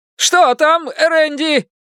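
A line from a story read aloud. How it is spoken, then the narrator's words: Shouted. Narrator (Russian): крикнул горе-герой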